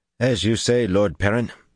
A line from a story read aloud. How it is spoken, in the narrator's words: said stiffly